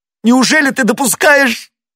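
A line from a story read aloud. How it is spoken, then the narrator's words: Voice breaking into sobs. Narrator (Russian): Голос его перешел в рыдание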